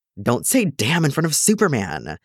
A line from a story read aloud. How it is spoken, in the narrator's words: the second kidnapper hisses